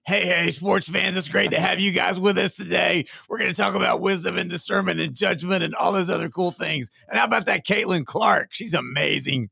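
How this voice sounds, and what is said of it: Impression of the host's voice. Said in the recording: “my best Bryce Johnson imitation ... what a great voice”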